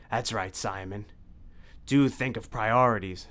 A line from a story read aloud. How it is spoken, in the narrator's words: snarled Dracula